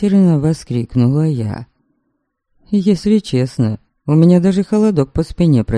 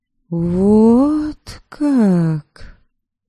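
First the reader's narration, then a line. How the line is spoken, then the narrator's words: Slow drawl. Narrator (Russian): Медленно протянула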